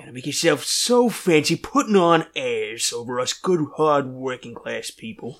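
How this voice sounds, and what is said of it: Archie Bunker character voice. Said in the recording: “my Archie Bunker is just my Donald Trump impression.”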